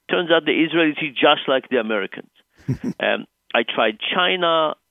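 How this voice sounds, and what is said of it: Israeli-accented English. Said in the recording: “as you could probably tell from my accent, I grew up in Israel”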